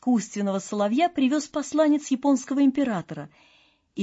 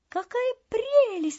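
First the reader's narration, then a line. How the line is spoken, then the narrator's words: Crowd exclaiming. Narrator (Russian): воскликнули все придворные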